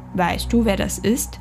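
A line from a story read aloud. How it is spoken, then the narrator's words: Plain. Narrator (German): fragte er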